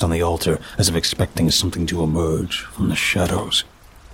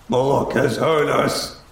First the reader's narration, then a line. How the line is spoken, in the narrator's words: shouted